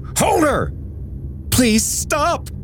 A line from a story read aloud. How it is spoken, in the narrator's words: William shouted